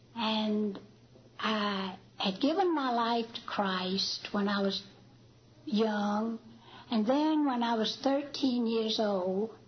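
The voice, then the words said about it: Real Alabama accent. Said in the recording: “you're going to hear a real Alabama accent”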